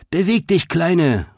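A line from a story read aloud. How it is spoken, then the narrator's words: Shouting while racing past. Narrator (German): rief Greta, als sie vorbeiraste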